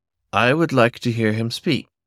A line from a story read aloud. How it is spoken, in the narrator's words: Awati said calmly